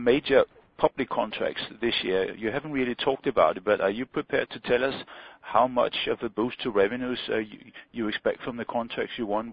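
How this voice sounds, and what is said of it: Clear Danish accent. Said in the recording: “a person with a clearly Danish accent”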